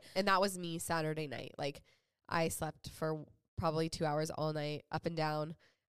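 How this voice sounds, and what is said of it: Sick, congested voice from a cold. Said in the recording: “if you guys can hear it in my voice, I'm still recovering a little bit... the like seasonal cough and cold”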